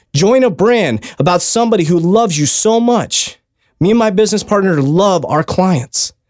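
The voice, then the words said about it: Emotional, fired-up delivery. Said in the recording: “I'm getting emotional right now. I'm fired up.”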